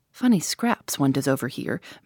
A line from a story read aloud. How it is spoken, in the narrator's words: murmured Tommy